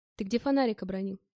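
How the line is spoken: Plain question. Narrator (Russian): спросил он меня

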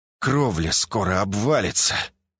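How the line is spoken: Reluctantly breathed out. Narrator (Russian): скрипя сердце, выдохнул

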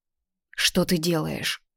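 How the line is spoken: Broken whisper. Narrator (Russian): прерывисто прошептала

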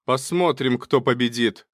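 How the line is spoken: Agitated shout. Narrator (Russian): крикнул Качинский в волнении

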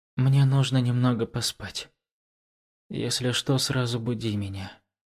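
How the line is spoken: Barely audible mutter. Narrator (Russian): еле слышно пробормотала

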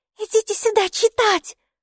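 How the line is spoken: Shouting. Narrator (Russian): снова закричала Майки

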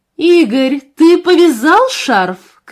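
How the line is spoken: Calling after. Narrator (Russian): крикнула она ему вслед

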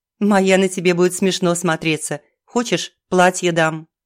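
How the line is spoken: Laughing. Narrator (Russian): хохотала

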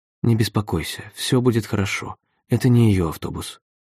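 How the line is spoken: Soft. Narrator (Russian): также мягко говорит

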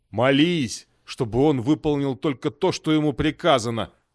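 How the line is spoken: Growl. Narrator (Russian): прорычал Найпал

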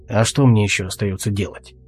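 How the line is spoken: Muttered. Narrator (Russian): буркнул Алвис

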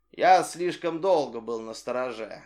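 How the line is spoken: Plain. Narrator (Russian): ответил летчик

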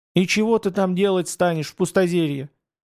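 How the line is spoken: Sobbing question. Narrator (Russian): со всхлипом спросила Устинья

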